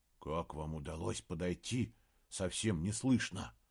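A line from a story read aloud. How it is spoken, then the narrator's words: Whispered question. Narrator (Russian): Также шепотом спросил Саймон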